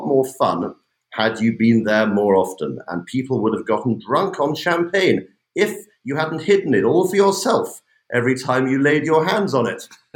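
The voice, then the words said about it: British accent. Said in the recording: “the perfect British accent, you haven't lost it, despite the LA residence”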